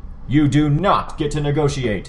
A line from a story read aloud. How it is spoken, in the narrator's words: Armsmaster roared